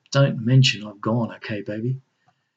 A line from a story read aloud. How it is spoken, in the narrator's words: With a kiss of pure love, said quietly